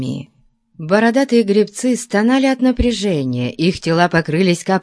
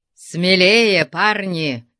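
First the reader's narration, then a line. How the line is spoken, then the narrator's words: Growling. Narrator (Russian): рычал он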